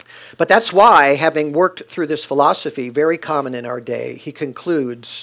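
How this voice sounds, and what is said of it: Usual voice. Nothing is said of it.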